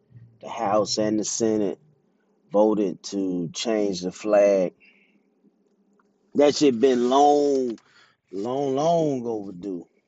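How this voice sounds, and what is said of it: Mississippi Southern US accent. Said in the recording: “I'm from Jackson, Mississippi. You can probably hear it in my accent, in my voice”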